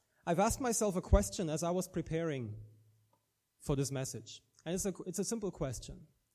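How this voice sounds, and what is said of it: German-accented English. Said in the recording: “I'm from Germany originally... my accent is neither Irish nor South African... I have a German-English accent.”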